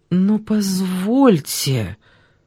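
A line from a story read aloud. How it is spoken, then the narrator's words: Confused mumbling. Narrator (Russian): в растерянности промямлила Ольга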